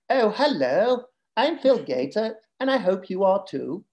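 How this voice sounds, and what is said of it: Put-on Southern English accent. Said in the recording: “they do a Southern English accent, which is like”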